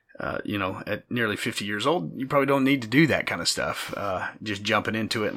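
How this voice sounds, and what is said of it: Gravelly, partly lost voice. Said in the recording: “lost my voice. ... So if I sound a little gravelly today”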